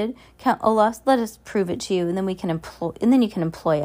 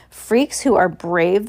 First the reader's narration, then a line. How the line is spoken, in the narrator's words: the hook-handed man sneered